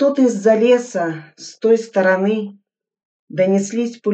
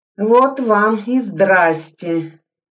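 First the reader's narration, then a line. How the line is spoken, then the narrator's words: Plain. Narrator (Russian): сказал Сайко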